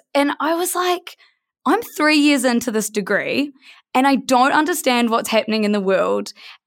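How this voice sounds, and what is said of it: New Zealand accent. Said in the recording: “New Zealand, which you can probably hear from my accent is where I'm from”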